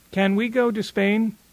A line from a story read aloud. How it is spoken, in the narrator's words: she asks